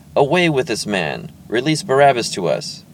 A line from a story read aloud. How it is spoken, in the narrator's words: With one voice, they cried out